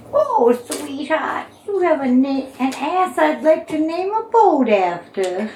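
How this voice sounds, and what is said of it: Old grandmother character voice. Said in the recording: “grandma voice”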